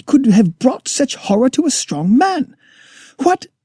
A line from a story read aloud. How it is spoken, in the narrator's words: I cried